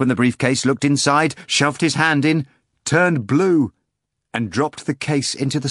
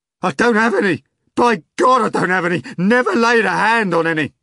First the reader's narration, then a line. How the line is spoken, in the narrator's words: the chairman cried desperately